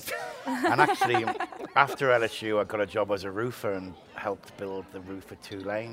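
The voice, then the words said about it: Liverpool English accent. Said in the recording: “people are going to know from your accent ... Liverpool in England”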